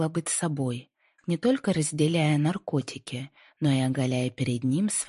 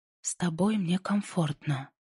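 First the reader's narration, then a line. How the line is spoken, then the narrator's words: Whispered. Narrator (Russian): прошептала Инди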